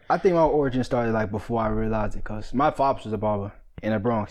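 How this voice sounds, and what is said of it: Slight New York accent. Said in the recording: “I hear a little bit of New York accent... It was sneaking there.”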